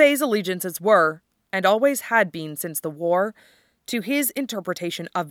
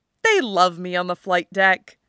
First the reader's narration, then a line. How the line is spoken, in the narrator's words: Duo said cheerfully